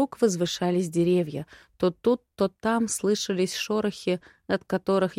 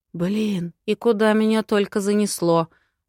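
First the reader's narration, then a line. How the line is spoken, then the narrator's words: Muttered under breath. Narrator (Russian): буркнула себе под нос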